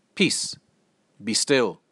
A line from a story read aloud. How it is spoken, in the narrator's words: Very calmly, Jesus stood up and said